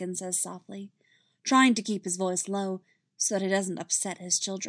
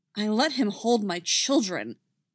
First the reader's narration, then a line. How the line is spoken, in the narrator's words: Anakin says angrily